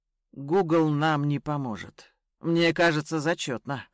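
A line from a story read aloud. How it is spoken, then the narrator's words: Snort. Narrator (Russian): хмыкнул Ян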